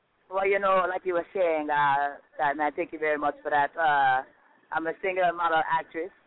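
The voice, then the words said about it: Jamaican accent. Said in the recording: “she is a Jamaican artist ... She got this accent”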